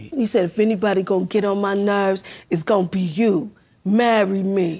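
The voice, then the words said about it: Imitates another person's voice. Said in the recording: “I can't with the impersonation.”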